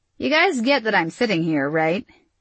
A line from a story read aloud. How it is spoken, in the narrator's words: Isabel laughed